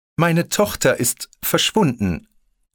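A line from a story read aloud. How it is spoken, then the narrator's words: Hesitant. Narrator (German): nahm sie schließlich zögernd das Gespräch wieder auf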